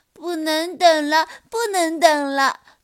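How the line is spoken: Anxious wailing. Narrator (Chinese): 面包熊也着急的大哭起来

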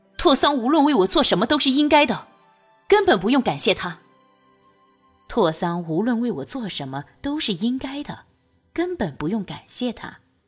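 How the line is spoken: Loud. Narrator (Chinese): 大声道

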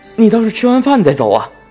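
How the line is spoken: Calling from behind. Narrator (Chinese): 何玉在身后喊

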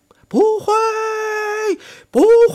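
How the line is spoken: Crowd shouting frantically. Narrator (Chinese): 听众的回答是疯狂的喊声

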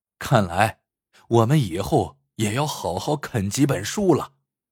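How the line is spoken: Group sighing. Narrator (Chinese): 大家此刻才连连叹道

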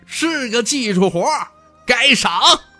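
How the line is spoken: Loud laughing. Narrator (Chinese): 徐凤年大声笑道

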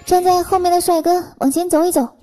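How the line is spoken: Shouting. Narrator (Chinese): 司机叫开始喊

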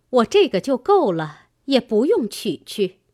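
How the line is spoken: Laughing. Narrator (Chinese): 尤氏笑道

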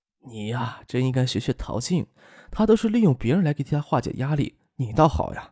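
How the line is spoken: Helpless sigh. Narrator (Chinese): 周淑慧无奈的叹了一口气，说道

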